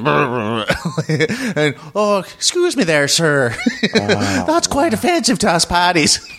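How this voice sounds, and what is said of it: Put-on Irish accent. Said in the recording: “How great was my accent there? ... It was pretty good. ... pretty decent, yeah. ... I mean, I thought you were Irish.”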